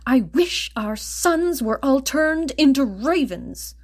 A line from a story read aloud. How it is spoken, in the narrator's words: Frantic with worry at the thought that their daughter might die before being baptized, the father, in anger, snapped